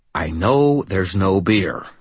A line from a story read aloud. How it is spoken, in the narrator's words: I growled